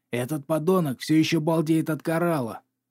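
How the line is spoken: Growling. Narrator (Russian): зарычал он

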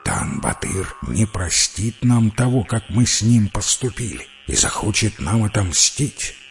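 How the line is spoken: Quiet, not to wake others. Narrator (Russian): Тен-Батыр тихо, чтобы никого не разбудить, сказал

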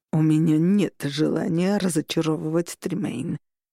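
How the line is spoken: Through clenched teeth. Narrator (Russian): процедил Августин

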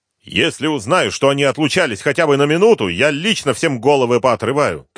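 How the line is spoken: Shouting. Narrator (Russian): кричал Артемьев

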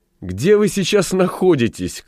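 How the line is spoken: Laughing shout. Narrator (Russian): крикнула, смеясь, Элли

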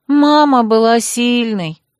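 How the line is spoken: Sad sigh. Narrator (Russian): печально вздохнула Хлоя

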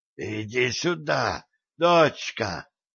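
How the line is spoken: Hoarse wheeze. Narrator (Russian): Султан хрипит

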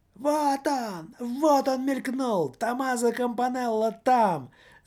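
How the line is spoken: Shouting at full strength. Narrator (Russian): закричал господин радио, что было мочи

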